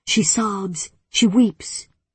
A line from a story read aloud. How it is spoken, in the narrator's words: she growls